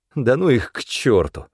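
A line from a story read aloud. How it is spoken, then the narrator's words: Said wearily. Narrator (Russian): устало сказал Князев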